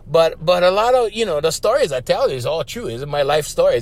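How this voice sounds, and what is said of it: Hawaiian Pidgin-accented English. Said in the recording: “what is that accent you have? I said, well, it's not really an accent. It's called pidgin. In Hawaii, it's called pidgin. It's just broken English.”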